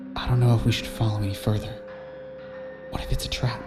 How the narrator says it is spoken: whispered into her ear

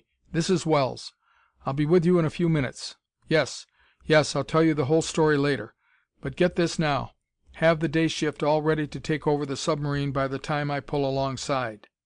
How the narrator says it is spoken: said harshly

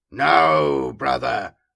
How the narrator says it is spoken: the ancient boomed

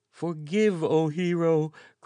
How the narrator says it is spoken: cried the groveling courier

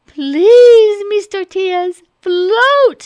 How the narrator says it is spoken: cried

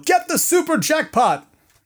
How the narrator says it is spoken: Ernie Hudson yell

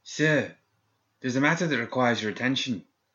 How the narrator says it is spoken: He breathlessly exclaimed

